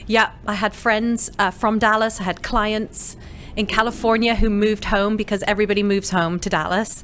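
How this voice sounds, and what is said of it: Slightly faded British accent. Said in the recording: “You are from the UK. ... We can hear it. ... you've lost a little of your accent”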